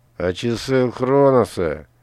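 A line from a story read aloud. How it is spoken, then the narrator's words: Hissed through teeth. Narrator (Russian): сквозь зубы прошипел Верс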